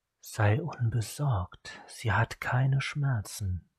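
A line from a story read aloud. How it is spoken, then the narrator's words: Vampire murmuring. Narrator (German): murmelte der Vampir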